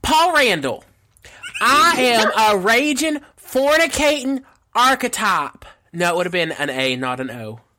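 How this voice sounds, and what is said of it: Imitates another person's voice. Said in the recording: “let me channel my mom real quick.”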